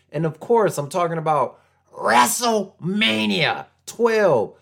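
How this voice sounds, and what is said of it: Poor 80s Vince McMahon impression. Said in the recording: “That was terrible. I was trying to impersonate 80s Vince McMahon.”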